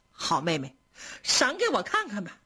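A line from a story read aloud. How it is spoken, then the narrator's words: Smiling, pleading. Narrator (Chinese): 宝玉就笑着央求林黛玉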